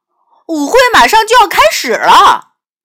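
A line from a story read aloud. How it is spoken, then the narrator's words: Shouting. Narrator (Chinese): 他朝 amber 喊道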